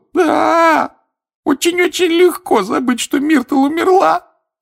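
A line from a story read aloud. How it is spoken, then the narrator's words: Sobbing. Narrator (Russian): рыдала плакса Миртл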